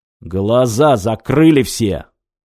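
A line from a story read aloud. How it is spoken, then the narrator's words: Barking. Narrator (Russian): рявкнул бампер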